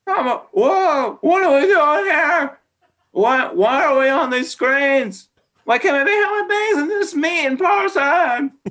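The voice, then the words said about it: Jerry Seinfeld impression. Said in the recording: “I love doing characters and bits and I'm doing impressions... This is Jerry Seinfeld... Terrible.”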